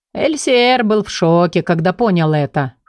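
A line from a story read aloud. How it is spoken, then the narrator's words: Chuckling man. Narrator (Russian): хохотнул мужчина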